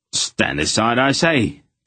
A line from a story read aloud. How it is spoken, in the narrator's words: the arrogant man protested sharply